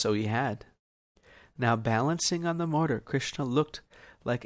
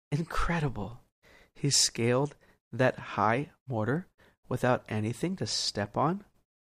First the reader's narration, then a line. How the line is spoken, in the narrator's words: Yashoda whispered to herself